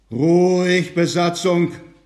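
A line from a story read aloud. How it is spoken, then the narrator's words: Commanding roar. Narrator (German): brüllte, als ob er eine Mannschaft von 17 Matrosen zu beaufsichtigen hätte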